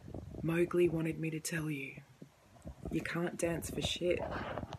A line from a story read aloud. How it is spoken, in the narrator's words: the girl beside him stretch her arms until she morphed into a sleek panther and whispered